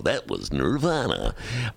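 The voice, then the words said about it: Casey Kasem radio DJ impression. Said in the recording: “that was a great Casey Kasem ... I guess I am imitating Casey Kasem”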